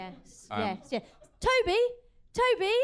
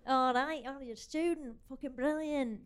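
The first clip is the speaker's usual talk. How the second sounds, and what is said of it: Put-on Mancunian accent. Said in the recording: “That's the accent that I used to do.”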